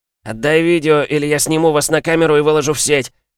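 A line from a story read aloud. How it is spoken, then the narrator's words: Yelling. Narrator (Russian): Орал он снова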